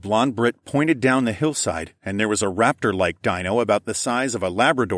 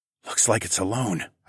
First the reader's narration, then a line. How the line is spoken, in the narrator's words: whispered